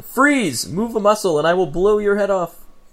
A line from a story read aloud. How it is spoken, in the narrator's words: spin around yelling